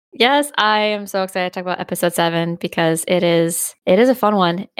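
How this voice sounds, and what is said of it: Stuffy, congested nasal voice. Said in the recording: “I'm a little under the weather, so I have a bit of a stuffy nose. So if my voice sounds odd.”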